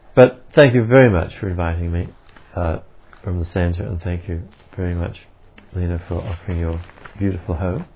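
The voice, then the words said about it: Australian accent. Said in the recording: “the boring old Australian accent”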